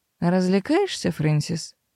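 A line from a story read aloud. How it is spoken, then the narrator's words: Dry inquiry. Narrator (Russian): сухо поинтересовалась Мэйр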